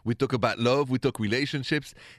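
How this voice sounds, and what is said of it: French accent from Paris. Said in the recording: “The accent is French, de Paris, la France.”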